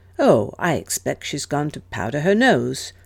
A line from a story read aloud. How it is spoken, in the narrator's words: Morris replied calmly